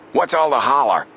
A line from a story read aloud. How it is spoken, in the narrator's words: he barked